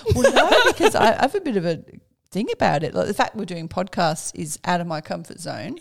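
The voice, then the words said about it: Mixed Birmingham English and Australian accent. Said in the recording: “I have this hybrid English Brummy Australian accent ... Get some twangy words that come out every now and then.”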